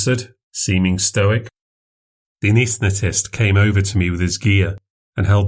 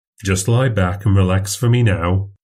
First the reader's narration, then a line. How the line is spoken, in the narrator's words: he said